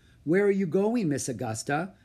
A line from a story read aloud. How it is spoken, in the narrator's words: asked Molly